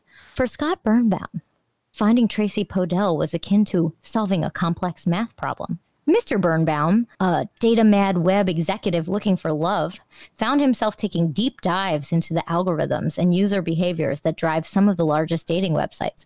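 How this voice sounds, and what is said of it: Imitated NPR radio voice. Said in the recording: “I'm doing my best like NPR voice.”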